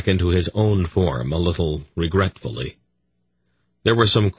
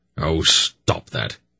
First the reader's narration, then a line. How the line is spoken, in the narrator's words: he snapped irritably